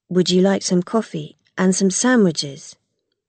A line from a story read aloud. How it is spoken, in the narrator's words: Seru's brother asked